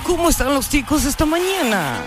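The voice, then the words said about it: Put-on female radio announcer voice. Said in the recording (Spanish): “así como voz de locutora.”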